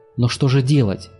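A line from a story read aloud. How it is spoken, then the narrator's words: Desperate question. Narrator (Russian): спросил Таргитай отчаянным голосом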